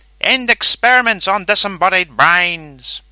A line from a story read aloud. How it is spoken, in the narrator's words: cried